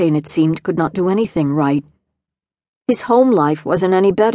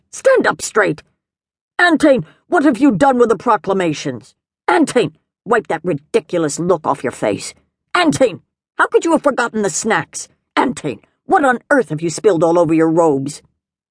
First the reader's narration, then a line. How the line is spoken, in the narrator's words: elders barked